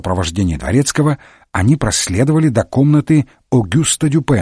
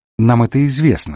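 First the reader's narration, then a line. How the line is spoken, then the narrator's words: Calm remark. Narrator (Russian): спокойно заметил Холмс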